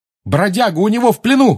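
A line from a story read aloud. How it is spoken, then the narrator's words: Shout. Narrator (Russian): крикнул он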